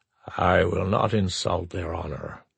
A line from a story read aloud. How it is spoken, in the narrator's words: Zarnok said softly